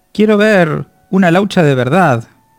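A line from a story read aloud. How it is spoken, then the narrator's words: Shouted. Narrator (Spanish): le había gritado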